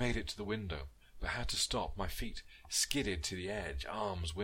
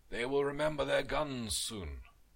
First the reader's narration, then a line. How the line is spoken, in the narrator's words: Vasily shouted